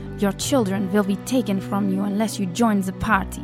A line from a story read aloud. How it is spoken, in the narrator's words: would growl